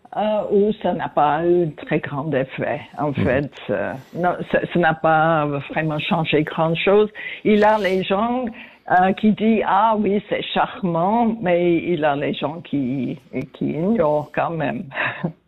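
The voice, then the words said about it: Noticeable accent in French. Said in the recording (French): “comme vous pouvez entendre, j'ai toujours mon accent ... cet accent qu'on entend avec plaisir”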